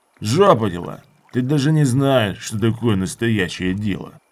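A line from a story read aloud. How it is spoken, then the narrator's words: Incredulous snort. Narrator (Russian): Мужила недоверчиво фыркнул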